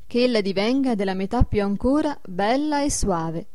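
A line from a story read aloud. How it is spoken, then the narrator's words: Plain. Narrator (Italian): disse un quinto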